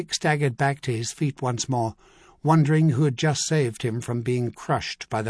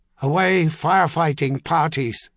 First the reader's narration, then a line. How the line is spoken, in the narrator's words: he bellowed